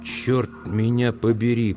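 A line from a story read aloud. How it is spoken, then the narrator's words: Whisper. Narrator (Russian): прошептал Люстик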